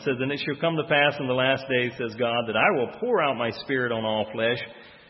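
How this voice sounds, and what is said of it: Southern US accent with twang. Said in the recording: “I won't say good English because I'm from the South. So there may be a little twang on that from time to time.”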